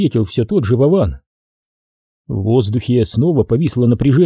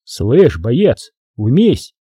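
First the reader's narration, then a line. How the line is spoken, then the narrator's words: Barked. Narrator (Russian): рявкнул уже Виктор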